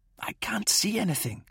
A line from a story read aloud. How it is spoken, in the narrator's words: whispered